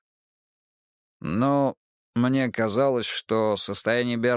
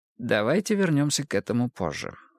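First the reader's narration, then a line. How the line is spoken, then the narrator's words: Calm. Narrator (Russian): спокойно отозвался Ницше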